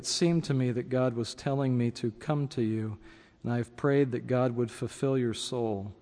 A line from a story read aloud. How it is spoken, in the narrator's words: she said very softly